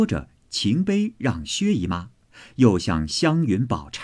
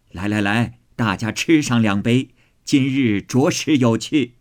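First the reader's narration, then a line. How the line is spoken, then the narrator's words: Laughing. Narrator (Chinese): 贾母笑道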